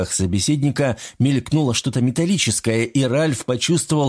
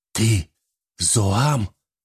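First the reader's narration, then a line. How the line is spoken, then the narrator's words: Strained, forced out. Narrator (Russian): только и выдавил он из себя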